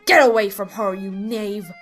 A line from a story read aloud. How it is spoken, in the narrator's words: he growled